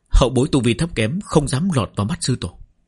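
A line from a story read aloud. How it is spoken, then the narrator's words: Respectful, hiding fear. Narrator (Vietnamese): Chỉ Trích Vân trong lòng run rẩy, nhưng không dám biểu lộ ra ngoài, cung kính đáp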